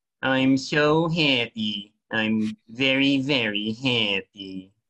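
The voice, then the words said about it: Cartoon dog character voice. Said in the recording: “Droopy the dog ... I can do his impression ... That's not a bad impression”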